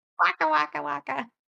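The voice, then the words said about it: Cartoon character voice impression. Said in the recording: “That was a very good. That was a good impression. I didn't realize you were an impressionist.”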